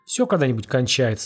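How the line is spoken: Calm old man. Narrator (Russian): спокойно сказал старик

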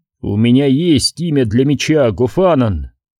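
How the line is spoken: Quiet, grim. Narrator (Russian): сказал тихим, мрачным голосом

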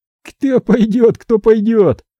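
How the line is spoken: Joyful hoarse voice. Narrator (Russian): радостно прохрипел Семёныч

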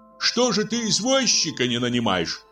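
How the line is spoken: Shout. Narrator (Russian): крикнул Владимир Семенович

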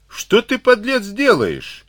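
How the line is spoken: Frightened yell. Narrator (Russian): в испуге заорал Карабанов

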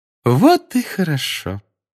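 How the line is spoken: Sugary singsong. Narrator (Russian): сладким голосом пропела профессор Амбридж

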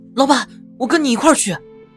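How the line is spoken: Loud. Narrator (Chinese): 大声道

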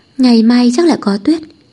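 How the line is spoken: Composed, smiling. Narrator (Vietnamese): Xính Đình lấy lại bình tĩnh ... mỉm cười nói

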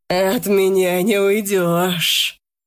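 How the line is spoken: Hissed. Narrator (Russian): прошипел Арсений

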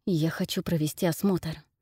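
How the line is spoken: Whispered reply. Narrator (Russian): ответил шепотом

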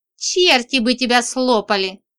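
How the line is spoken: Scoffing snort. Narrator (Russian): хмыкнула

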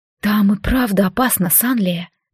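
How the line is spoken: Quiet. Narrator (Russian): тихо сказала Джаад

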